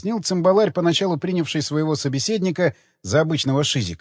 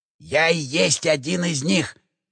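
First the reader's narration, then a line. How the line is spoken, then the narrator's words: Conspiratorial male voice. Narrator (Russian): заговорщицким тоном пояснил бородатый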